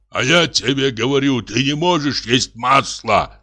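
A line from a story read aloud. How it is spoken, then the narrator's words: Shout. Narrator (Russian): крикнул Яков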